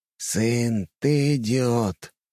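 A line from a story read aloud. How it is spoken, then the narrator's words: Heavy sigh. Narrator (Russian): тяжело вздохнул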